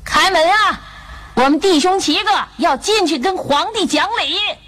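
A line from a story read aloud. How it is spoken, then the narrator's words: Loud shout. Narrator (Chinese): 大声的喊道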